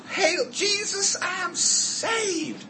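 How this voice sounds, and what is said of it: Put-on southern accent. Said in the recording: “Pardon the southern accent”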